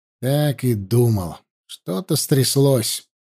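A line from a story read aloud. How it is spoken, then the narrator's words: Grumbling. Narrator (Russian): проворчал Аршалай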